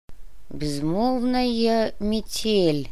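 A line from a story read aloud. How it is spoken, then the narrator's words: Thoughtful mumble. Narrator (Russian): задумчиво пробормотал Доминго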